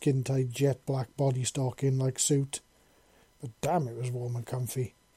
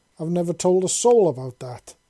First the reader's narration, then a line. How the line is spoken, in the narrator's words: she exclaimed in a mixture of anger and fear gripping her heart